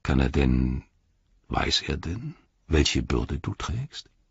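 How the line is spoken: Quiet. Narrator (German): sagte Faramir leise

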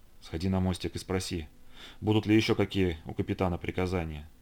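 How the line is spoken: Quiet speech. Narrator (Russian): он тихо сказал

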